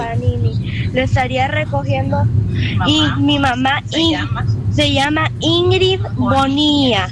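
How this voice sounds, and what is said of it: Put-on Spain Spanish accent. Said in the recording (Spanish): “la notica de voz con el acento ... ¿Aplica con ese acento? ... lo besó un español”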